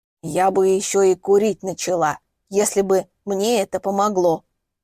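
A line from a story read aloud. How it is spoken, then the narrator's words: Grumbling. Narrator (Russian): буркнула она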